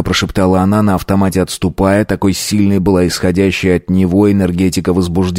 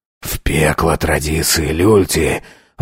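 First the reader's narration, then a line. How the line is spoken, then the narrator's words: Hoarse, strained reply. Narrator (Russian): ответил хрипло, даже надрывно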